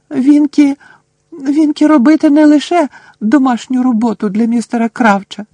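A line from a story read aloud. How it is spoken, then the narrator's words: Indignant squeak. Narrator (Ukrainian): обурено запищала Вінкі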